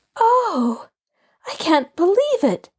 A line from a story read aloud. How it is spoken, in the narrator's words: Allie gasped